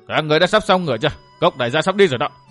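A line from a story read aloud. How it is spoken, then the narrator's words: Big man shouting question. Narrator (Vietnamese): một đại hán quát hỏi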